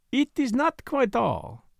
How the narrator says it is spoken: he said smoothly

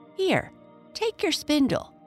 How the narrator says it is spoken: cried the woman to her own daughter

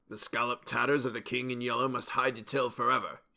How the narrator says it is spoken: he muttered

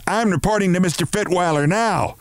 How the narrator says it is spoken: she shouted

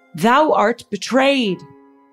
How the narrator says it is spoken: shouting up at the royal procession

